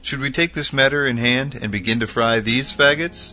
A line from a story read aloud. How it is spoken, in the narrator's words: Hooper exclaimed